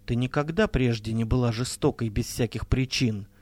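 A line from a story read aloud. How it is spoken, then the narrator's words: Calm reply. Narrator (Russian): спокойно ответила Энги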